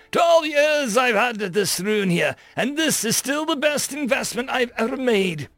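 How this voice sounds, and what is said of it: Raspy old man's voice. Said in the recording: “he cackled in a raspy old voice”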